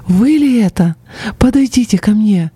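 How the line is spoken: Sudden joyful exclamation. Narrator (Russian): вдруг, просияв, она воскликнула

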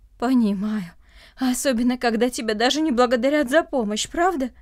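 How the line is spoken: Heavy sigh. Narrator (Russian): Андрей тяжело вздохнул

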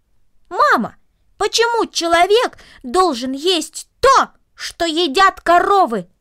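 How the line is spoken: Loud raised-voice repetition. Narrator (Russian): Повысив голос, он громко повторил

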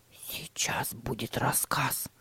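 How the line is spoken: Whisper. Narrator (Russian): прошептал Тима

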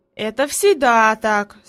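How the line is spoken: Calm reply. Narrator (Russian): спокойно ответил Питер

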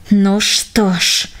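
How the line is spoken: Through clenched teeth. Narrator (Russian): процедил он сквозь сжатые зубы

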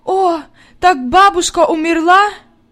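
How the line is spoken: Sobbing. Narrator (Russian): Зарыдалась

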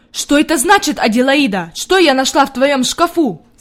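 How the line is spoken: Shout. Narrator (Russian): закричала она

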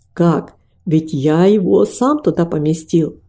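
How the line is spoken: Plain. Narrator (Russian): ответил он

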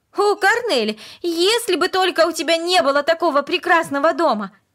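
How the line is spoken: Sudden passionate exclamation. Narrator (Russian): Вдруг она страстно воскликнула

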